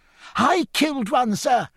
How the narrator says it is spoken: cried Parslow, running across the deck

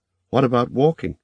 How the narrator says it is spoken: asked sharply, alarmed

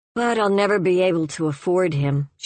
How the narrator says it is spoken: said, and sighed

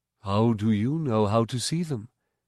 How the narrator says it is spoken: he asked

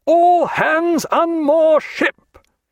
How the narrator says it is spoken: in a creditable imitation of Jack's quarter-deck voice, he roared

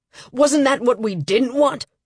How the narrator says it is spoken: I heard Lambert yell

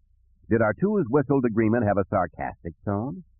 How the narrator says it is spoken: Luke chuckled

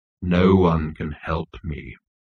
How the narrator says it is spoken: intoned Marvin

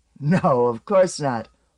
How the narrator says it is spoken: Huru giggled

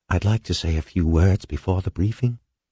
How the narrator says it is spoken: Floyd whispered to Halverson

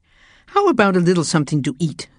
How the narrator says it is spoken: said James cheerfully

